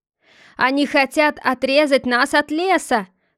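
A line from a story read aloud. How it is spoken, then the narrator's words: Shouting. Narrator (Russian): крикнул Эльфер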